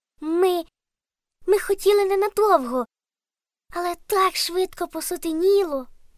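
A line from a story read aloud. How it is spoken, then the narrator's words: Squeaky voice. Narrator (Ukrainian): пропищав Каркусь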